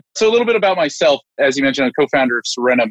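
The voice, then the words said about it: American accent. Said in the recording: “as you can tell, even though I'm UK-based, I do have an American accent.”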